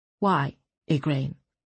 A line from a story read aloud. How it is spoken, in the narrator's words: Sabran asked evenly